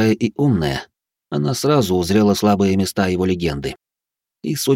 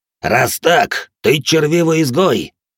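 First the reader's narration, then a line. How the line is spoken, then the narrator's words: Growled. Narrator (Russian): прорычал один из танаанов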